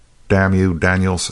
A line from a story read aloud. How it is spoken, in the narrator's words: said Haines fiercely